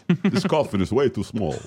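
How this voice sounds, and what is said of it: Put-on accent, Hungarian or Wisconsin. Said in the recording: “Oh, no, that's Hungarian. ... All of our accents. ... I think that was Wisconsin.”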